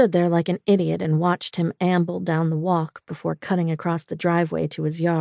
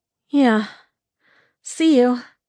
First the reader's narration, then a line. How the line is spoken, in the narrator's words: I said breathlessly